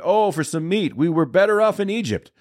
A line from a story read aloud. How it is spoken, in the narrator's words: You were whining